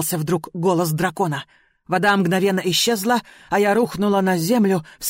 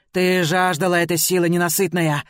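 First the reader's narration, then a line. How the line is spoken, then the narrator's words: Dragon's growl. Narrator (Russian): прорычал дракон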